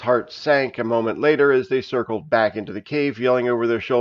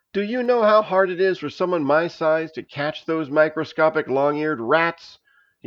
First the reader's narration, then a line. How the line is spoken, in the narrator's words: he shouted